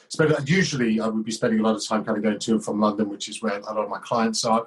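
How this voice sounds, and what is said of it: British English accent. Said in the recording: “you know your accent's different than mine ... I live near Cambridge over in the UK”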